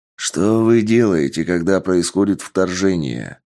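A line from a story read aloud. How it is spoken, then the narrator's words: Growling. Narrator (Russian): рыкнул босс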